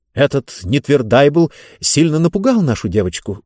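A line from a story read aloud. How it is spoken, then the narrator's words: Agitated speech. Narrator (Russian): взволнованно заговорил Зонталомайстер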